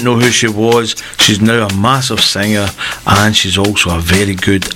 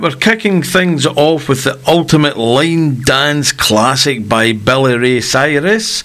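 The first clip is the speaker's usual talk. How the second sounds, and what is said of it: Attempted American accent, not very good. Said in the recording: “I want to try and put on that American accent. I'm not that great at it.”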